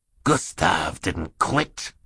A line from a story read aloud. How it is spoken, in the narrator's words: he said in his wheezy voice